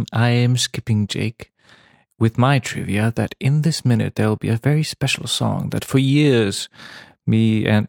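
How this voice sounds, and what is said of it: Put-on British accent. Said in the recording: “why am I doing British accent?”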